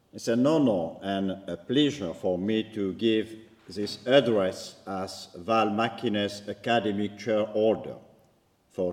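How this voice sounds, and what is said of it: Strong French accent in English. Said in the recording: “my atrocious French accent”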